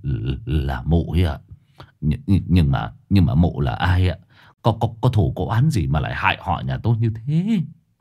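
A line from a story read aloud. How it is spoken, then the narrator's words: Old man trembling voice. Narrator (Vietnamese): Lão Luận run run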